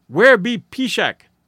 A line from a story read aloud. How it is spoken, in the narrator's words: an old squaw queried sharply